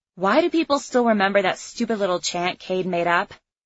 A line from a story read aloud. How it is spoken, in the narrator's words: I grumbled